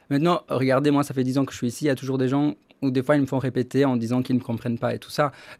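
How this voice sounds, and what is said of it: Charming foreign accent in French. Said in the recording (French): “vous avez un accent charmant”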